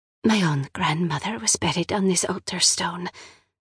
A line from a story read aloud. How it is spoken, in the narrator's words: the siren whispers